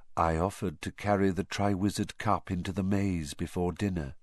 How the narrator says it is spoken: whispered Barty Crouch

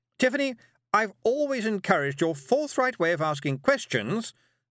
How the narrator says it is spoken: said Miss Tick loudly

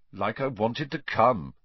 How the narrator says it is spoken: said Harry coldly

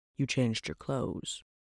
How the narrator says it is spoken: he muttered

